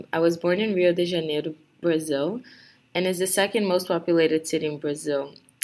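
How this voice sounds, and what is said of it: Brazilian accent in English. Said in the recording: “maybe you can tell by my accent that I'm not from here”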